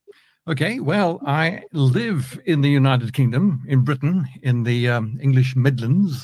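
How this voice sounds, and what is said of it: Mixed South African and British accent. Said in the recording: “I wasn't born in Britain. I was born in South Africa, so you might pick up a bit of a mix in the accent over here.”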